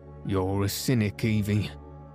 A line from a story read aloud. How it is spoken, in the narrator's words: said John, laughing